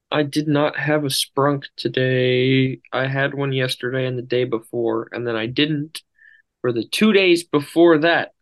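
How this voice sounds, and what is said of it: Tired-sounding voice. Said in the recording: “you sound so tired? ... A little bit.”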